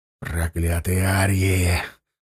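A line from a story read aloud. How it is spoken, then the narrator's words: Hiss. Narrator (Russian): зашипел гусляр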